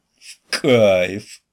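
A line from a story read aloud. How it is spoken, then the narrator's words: Muttered through gritted teeth. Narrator (Russian): процедил он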